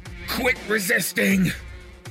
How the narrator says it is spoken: A voice yelled

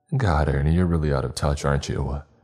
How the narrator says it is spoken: I chuckled

